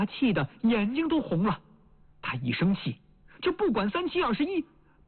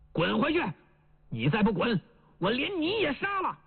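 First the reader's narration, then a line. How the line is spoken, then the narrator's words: Soldier shouting back. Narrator (Chinese): 那个歪嘴伪军回过头来喊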